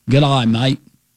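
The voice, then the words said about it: Put-on Australian accent. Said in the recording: “That's not a Japanese accent... That was Australia.”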